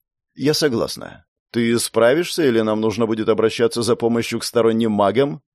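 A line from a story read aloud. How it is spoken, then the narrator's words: Lightly mocking. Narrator (Russian): В ее вопросе прозвучала издевка, но легкая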